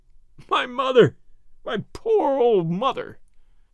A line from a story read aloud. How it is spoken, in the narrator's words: he sobbed